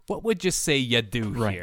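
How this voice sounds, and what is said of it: Put-on Fargo accent. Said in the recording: “You got to say it with like the proper inflection ... The Fargo accent? ... Yeah. The Fargo accent makes it better.”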